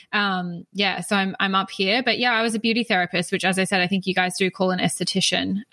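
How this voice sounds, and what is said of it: Australian accent. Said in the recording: “So I'm in Australia. If you can't pick up on my accent”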